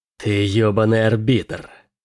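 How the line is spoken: Hissing. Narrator (Russian): прошипел Келин

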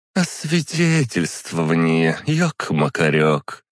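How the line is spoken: Drawl. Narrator (Russian): протянула она

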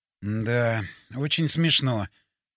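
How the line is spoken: Mumble. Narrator (Russian): пробормотал я

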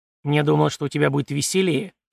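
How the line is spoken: Grumbling. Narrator (Russian): проворчал гость

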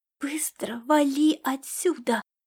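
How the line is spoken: Hissed under breath. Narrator (Russian): В полголоса прошипела звездная кошка

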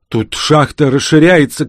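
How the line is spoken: Shout. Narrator (Russian): крикнула Марина

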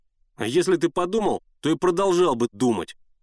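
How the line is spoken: Snapping retort. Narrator (Russian): огрызнулся Генка

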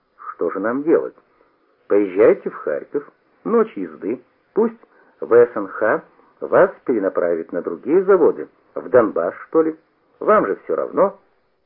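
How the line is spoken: Moved, asking. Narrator (Russian): Тронутый участливым тоном, который послышался в словах Франта, я спросил

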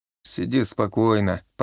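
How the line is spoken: Grumbling with a smile. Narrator (Russian): проворчал он с улыбкой

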